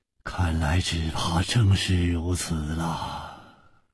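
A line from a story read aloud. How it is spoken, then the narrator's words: Sighing. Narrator (Chinese): 楚留香叹道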